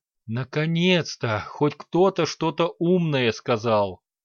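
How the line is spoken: Exhaled. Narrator (Russian): выдохнул Лек

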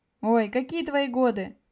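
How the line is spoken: Ironic snort. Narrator (Russian): Фыркнул с иронией

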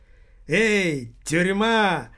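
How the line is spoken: Loud shout. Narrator (Russian): Громко крикнул он

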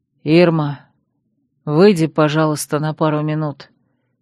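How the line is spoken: Hoarse polite request. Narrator (Russian): хрипло попросил Дар, что удивительно вежливо и корректно

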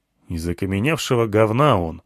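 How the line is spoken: Grumbled. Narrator (Russian): буркнул я

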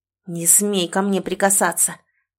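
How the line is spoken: Regretful growl. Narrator (Russian): зарычала я, в сотый раз сожалея

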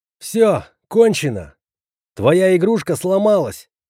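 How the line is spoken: Shout. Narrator (Russian): крикнул

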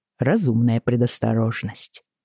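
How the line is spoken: Soft reply. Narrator (Russian): мягко отозвался Джейми

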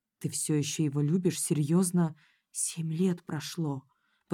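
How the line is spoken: Whispering. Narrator (Russian): прошептала Майка

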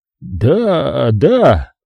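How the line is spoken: Confused mumble. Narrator (Russian): растерянно пробормотал Люкази

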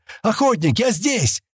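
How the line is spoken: Joyful shout. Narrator (Russian): радостно закричал Стэн

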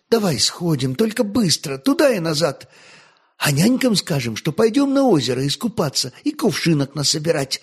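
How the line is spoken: Joyful. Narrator (Russian): радостно подхватила Болеся

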